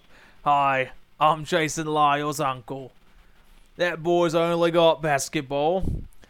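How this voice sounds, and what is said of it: Imitates another person's voice. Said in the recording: “if that was Russell Crowe with an unchanged accent.”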